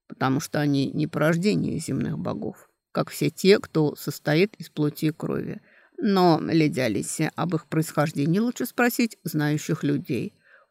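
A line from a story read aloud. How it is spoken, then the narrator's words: Tired. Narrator (Russian): устало сказал оборотень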